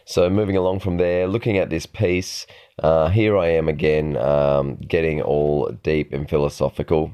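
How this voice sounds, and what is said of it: Dry, slightly worn voice. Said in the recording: “my voice is a little bit dry today ... I was up pretty late last night, and the air was quite cool out on that field ground”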